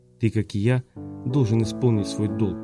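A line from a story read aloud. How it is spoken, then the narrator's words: Captain's quiet speech. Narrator (Russian): тихо сказал капитан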